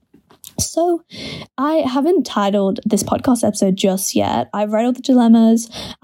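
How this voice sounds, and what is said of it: Irritated voice, sounds close to crying. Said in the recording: “My voice sounds like I'm about to like cry. ... I think my voice is a bit irritated because I like slept with my mouth open last night.”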